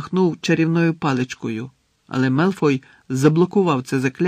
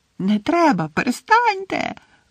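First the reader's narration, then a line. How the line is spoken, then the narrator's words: Tearful echoing shriek. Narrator (Ukrainian): верещала плаксива Мірта, і її голос відлунював в обкладеному кахлями приміщенні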